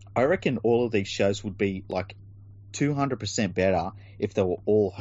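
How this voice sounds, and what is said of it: Usual voice. Nothing is said of it.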